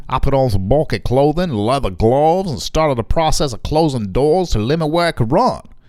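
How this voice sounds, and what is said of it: Put-on Louisiana accent. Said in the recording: “I can't say for sure if that's a good Louisiana accent. ... It's pretty good.”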